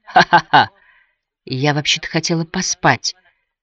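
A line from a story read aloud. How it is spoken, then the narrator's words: Weak voice. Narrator (Russian): слабым голосом заметила Шарлотта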